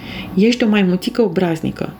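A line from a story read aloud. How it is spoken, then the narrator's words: Surprised exclamation. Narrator (Romanian): exclamă doamna Linda mirată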